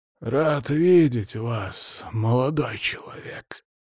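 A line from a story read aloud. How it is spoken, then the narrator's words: Dry, slightly creaky voice. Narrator (Russian): сухим, чуть скрипящим голосом проговорил он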